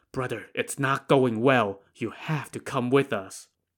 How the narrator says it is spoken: While out of earshot of everyone else, he whispered to Song Jiang

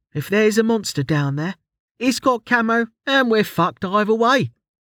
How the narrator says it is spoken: she said cheerfully

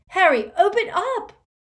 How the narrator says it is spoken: He had shouted out

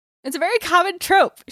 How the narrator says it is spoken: she shouted

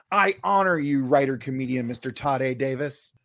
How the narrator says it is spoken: shout

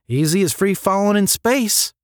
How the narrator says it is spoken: replied the other cadet his soft Georgian drawl full of confidence

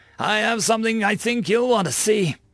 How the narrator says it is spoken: he shouted

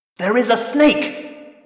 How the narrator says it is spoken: Visser 3 roared

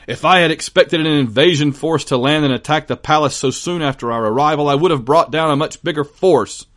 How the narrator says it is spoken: after a string of profanities, he barked at Barbarossa

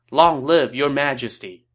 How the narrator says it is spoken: all the troops shouted

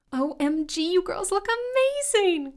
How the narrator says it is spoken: Crystal squealed

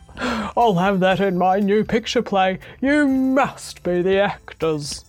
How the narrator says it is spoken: he laughed till he cried, and he said

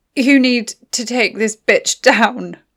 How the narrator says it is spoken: Mattie forced through gritted teeth

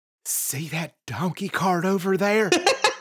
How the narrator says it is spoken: She whispers

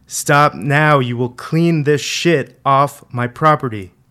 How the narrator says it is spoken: Dad kept yelling

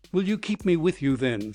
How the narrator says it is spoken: said Maggot anxiously

